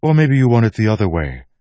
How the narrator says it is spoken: Milan snapped

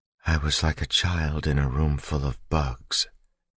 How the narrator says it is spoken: Vin whispered

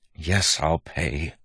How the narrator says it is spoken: Waxillium said with a sigh

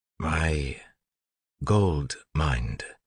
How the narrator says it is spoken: he said slowly

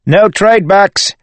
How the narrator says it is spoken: Wayne shouted, running for all he was worth

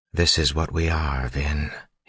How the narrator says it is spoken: said quietly

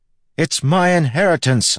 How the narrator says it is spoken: I yelled back

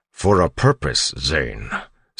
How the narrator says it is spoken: Straff said sternly

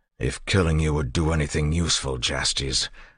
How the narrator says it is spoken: Elend growled

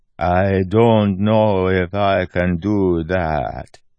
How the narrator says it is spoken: Milan said, talking in a slow, deliberate way, with a hint of terrace and a lot of slurred words

